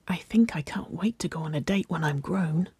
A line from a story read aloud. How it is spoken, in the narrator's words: Waverley whispered, extra quiet